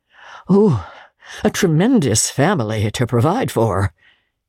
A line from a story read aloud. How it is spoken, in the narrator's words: muttered Scrooge